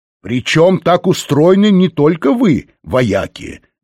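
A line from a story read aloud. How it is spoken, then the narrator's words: Plain. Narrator (Russian): говорит Лэнгдон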